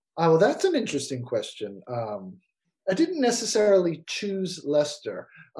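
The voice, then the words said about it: American accent. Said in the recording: “an American, I assume by your accent”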